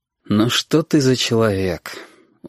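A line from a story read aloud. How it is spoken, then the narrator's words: Tired. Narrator (Russian): устало сказал Фарид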